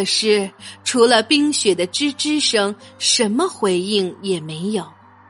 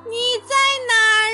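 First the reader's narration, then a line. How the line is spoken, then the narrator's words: Shout. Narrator (Chinese): 莫兹大喊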